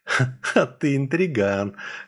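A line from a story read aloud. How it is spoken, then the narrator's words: Laughing. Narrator (Russian): хохотнула Яра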